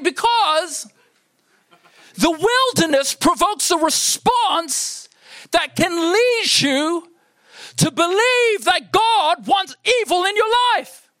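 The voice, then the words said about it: Shouting, loud preaching voice. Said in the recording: “why am I shouting you so much? I'm shouting”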